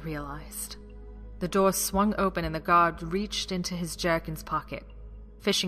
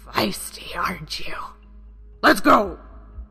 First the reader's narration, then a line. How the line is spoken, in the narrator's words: the Moblin captain growled